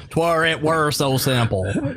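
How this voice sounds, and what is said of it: Put-on country accent. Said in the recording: “Or a more country accent.”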